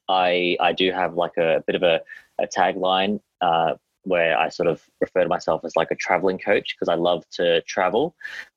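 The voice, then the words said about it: Australian accent. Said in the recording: “As you can tell by my accent, I'm Australian”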